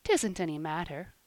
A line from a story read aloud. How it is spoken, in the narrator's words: said Polly kindly